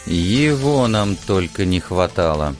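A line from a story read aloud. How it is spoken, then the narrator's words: Through gritted teeth. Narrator (Russian): процедил сквозь зубы Алекс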